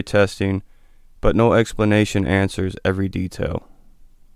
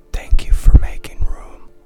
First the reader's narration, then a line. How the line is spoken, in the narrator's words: I heard it whisper